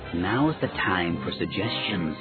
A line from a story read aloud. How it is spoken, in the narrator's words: Salkeeli hissed